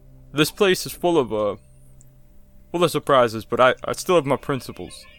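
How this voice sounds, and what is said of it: Strained put-on accent. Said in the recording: “this accent's impossible”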